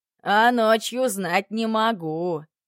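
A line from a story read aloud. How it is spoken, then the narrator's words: Chuckling. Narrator (Russian): хохотнул начальник поезда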